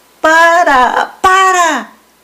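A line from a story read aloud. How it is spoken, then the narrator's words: Shouting. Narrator (Spanish): gritaban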